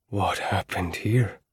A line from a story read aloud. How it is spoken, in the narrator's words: Iota asked in a hoarse whisper